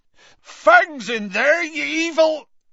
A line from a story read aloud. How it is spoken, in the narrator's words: Hagrid bellowed